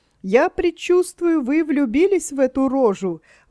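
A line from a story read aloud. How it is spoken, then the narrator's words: Young woman exclaiming. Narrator (Russian): воскликнула, наконец, молодая дама, которую княгиня Вера называла кузиной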